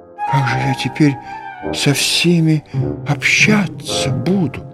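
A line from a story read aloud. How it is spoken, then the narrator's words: Pale shocked whisper. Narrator (Russian): Он побледнел и прошептал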